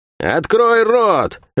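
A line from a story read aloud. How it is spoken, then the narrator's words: Barked command. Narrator (Russian): рявкнула она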